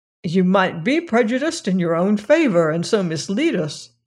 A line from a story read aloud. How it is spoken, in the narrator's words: he said